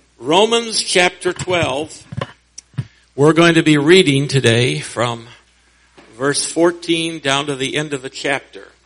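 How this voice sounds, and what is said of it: Voice slightly unwell, under the weather. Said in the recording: “my voice is a little bit under the weather”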